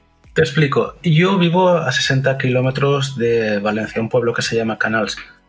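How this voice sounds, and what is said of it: Marked Valencian Catalan accent in Spanish. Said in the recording (Spanish): “tu acento, yo te ubico ... te ubicaba más por Cataluña, no tanto por Valencia ... un valenciano y un acento bastante marcado”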